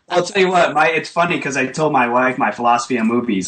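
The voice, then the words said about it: Rhode Island, New England accent. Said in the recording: “I'm hearing a little bit of a Long Island or New York accent ... Rhode Island ... The Boston sort of pachyka”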